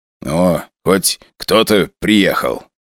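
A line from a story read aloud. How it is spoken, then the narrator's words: Grumbling. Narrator (Russian): проворчал Валера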